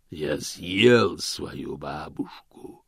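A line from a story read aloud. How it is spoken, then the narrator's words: Growl from above, darkness. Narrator (Russian): прорычал голос сверху из темноты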